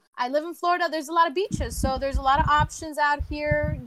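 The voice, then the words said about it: Southern-sounding accent. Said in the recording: “Why do you sound Southern? ... her accent changes. Like sometimes she gets a little hood.”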